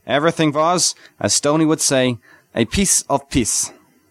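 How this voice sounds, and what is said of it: Forced American with German traces. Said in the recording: “traces of a German accent showing through his forced American”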